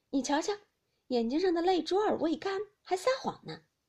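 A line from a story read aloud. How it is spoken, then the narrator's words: Laughing. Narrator (Chinese): 宝玉笑道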